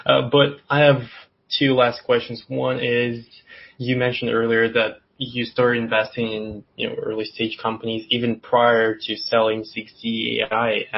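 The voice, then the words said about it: Hoarse, strained voice. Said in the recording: “sorry for losing my voice here.”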